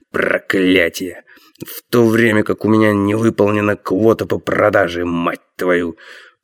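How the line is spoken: Hateful muttering. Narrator (Russian): с ненавистью бормотал

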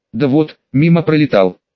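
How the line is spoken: Mumbling. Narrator (Russian): промямлил Марк

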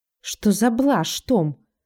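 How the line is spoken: Irritated. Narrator (Russian): раздраженно отвечает Джон

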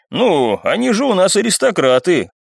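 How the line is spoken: Ironic snort. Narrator (Russian): хмыкнул второй, не скрывая иронии

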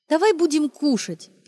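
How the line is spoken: Cheerful. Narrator (Russian): весело сказала она

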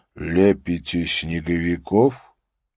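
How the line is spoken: Loud, clear question. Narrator (Russian): Харри Холли громко и четко спросил

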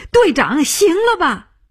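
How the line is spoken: Crying out. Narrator (Chinese): 他叫起来

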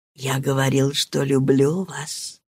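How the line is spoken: Whispered answer. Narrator (Russian): ответил шепотом

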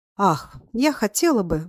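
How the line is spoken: Deep sigh. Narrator (Russian): вздохнула она всей грудью

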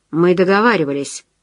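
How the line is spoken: Dry. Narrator (Russian): сухо сказал непрошенный гость

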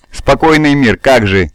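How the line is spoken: Angry. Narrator (Russian): сердито сказала Мирия

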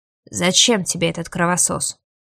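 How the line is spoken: Gloomy male voice. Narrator (Russian): Мрачно проговорил он

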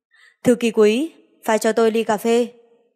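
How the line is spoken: Clear cold commanding voice. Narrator (Vietnamese): Thanh âm trong trẻo lạnh lùng phân phó nói

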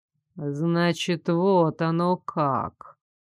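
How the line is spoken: Slow, through teeth. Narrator (Russian): медленно процедил Айрон

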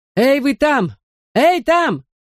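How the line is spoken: Shouted. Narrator (Russian): закричал кто-то

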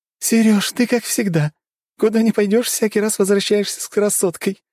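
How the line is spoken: Girl laughing loudly. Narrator (Russian): хохотала девушка

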